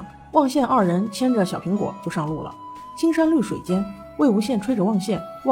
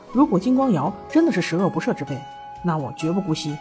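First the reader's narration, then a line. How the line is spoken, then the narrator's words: Through gritted teeth. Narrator (Chinese): 蓝曦臣咬牙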